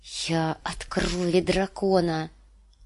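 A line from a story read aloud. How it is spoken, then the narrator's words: Loud brave whisper. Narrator (Russian): громко прошептала Дэнни, чтобы поддержать в себе отвагу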